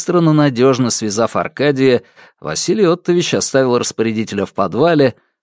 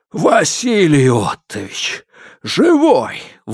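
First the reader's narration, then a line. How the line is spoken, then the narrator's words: Breathless exhale. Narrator (Russian): выдохнул Сидоров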